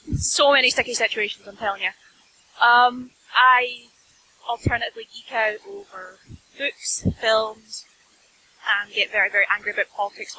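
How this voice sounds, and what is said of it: Scottish accent. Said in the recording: “As you can tell, I'm Scottish, but I do put on the accent a little further”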